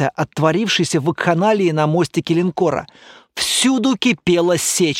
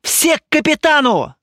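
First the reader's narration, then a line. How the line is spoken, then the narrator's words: Shout. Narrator (Russian): закричал я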